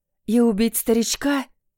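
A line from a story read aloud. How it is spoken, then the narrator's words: Hissing. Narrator (Russian): зашипела я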